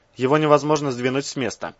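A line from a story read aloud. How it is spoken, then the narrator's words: Gloomy statement. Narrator (Russian): мрачно заявил один из стоящих в упоре лежа ученых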